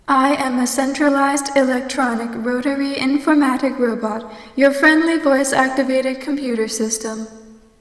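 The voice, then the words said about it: Robotic computer voice. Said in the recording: “She sounds just like my robot butler.”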